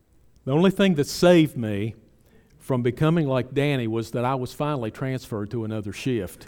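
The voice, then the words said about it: West Virginia accent. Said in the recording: “I do have this accent ... In West Virginia, they say a holler”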